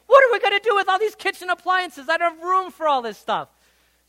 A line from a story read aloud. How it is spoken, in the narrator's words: Jennifer would start yelling at me saying